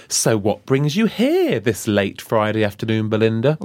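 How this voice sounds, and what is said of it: Riddler character voice. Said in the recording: “talking like a Riddler ... Because it is the Riddler.”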